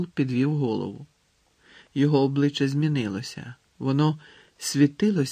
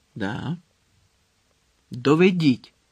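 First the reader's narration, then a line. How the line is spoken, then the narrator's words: Commanding tone. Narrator (Ukrainian): звелів тим самим командирським тоном, що й тоді, коли наказував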